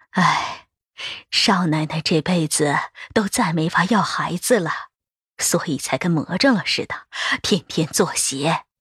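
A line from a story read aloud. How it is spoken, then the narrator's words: Old woman sighing. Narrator (Chinese): 另一个婆子叹气道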